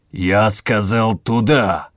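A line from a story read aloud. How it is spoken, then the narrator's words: Growl. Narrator (Russian): Зарычал Ревский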